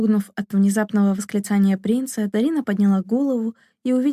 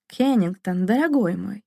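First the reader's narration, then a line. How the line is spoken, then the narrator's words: Cheerful exclamation. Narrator (Russian): весело воскликнул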